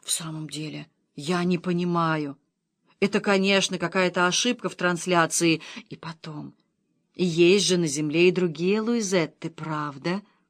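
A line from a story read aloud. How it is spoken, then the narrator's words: Muttered. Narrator (Russian): Она пробормотала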